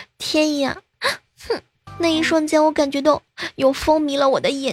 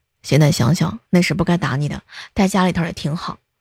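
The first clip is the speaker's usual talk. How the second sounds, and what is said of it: Quiet, soft-spoken voice. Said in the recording (Chinese): “小声的说”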